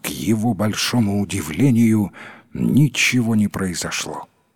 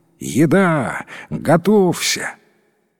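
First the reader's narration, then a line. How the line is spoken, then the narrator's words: Exclamation. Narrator (Russian): Старший сын воскликнул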